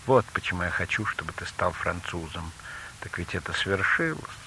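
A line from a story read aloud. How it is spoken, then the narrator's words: Sigh after pause. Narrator (Russian): помолчала, потом вздохнула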